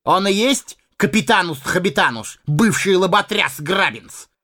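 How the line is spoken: Bandit's barked shout. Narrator (Russian): гаркнул желтолицый бандит

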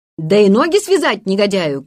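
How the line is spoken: Boys shouting excitedly. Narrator (Russian): кричали мальчики в величайшем возбуждении

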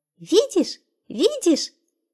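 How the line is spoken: Shouting. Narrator (Russian): кричала она

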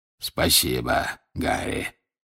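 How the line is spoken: Hoarse wheeze. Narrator (Russian): прохрипел Грюм

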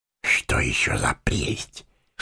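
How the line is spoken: Whisper in ear. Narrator (Russian): шепнул Сэмми на ухо Фродо

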